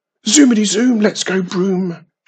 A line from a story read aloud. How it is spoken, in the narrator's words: she shouted